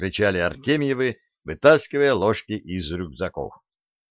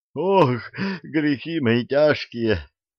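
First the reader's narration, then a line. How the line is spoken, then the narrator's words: Moaning. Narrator (Russian): стонал Почишин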